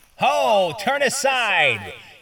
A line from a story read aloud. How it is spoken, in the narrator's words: he shouted